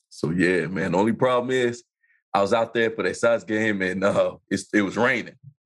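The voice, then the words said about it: Slightly congested voice. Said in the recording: “You hear it in my voice, don't you? ... it's just a little congested”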